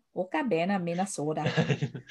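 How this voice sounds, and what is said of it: Put-on Minnesotan accent. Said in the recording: “Can you imagine that with a Minnesotan accent?”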